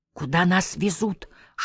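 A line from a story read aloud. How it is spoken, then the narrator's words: Whispered question. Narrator (Russian): шепотом спросил Госсы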